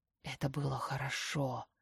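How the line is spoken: Hoarse, approving. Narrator (Russian): хрипит одобрительно

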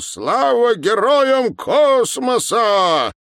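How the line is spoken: Shouting. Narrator (Russian): крикнул

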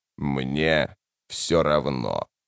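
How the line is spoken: Indifferent creaky voice. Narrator (Russian): равнодушно проскрипел Тлен

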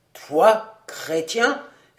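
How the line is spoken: Thunderous, mighty voice. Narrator (French): s'écria Comor d'une voix formidable

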